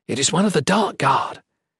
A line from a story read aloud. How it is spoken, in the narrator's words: she whispered surreptitiously